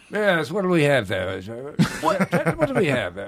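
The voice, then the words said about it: Put-on British waiter accent. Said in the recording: “Could you be a British waiter? ... He's just doing a voice.”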